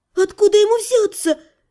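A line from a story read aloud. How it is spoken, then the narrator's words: Nervous squeak. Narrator (Russian): нервно пискнула полуэльфийка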